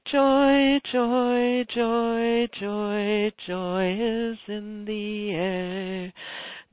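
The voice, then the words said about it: Shaky singing voice. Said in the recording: “sing a little song ... in my shaky voice”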